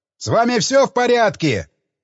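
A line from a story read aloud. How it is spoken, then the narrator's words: Shout. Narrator (Russian): крикнул я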